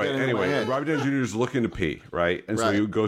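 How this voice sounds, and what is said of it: Usual voice. Nothing is said of it.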